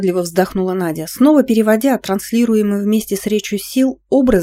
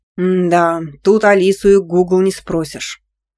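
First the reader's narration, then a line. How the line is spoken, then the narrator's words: Boss grumbling. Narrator (Russian): проворчал шеф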